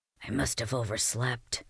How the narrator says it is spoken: he whispered

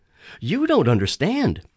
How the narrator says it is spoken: I pleaded

